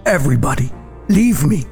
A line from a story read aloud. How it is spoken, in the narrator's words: he cried out to everyone who was standing nearby